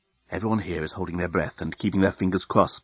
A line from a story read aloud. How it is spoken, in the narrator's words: whispered the head reporter of the Bluontin News-Gathering Bureau into his invisible microphone